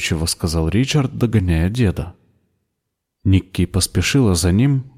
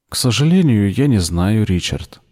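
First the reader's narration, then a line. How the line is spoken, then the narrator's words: Plain. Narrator (Russian): сказала Энн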